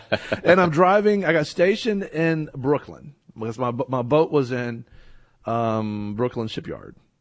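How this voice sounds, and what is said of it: Rural country accent. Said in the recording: “I'm a country boy, you know, you probably can't tell by my accent.”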